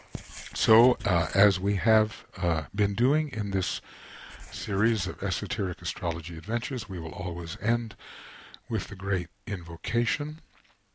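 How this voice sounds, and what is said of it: Rough, husky voice. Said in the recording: “Excuse my voice, it's a little bit rough right now.”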